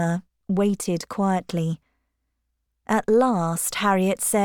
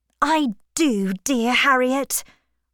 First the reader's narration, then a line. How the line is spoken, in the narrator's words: cried Emma